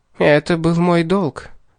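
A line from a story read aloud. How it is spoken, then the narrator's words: Sad. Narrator (Russian): грустно промолвила она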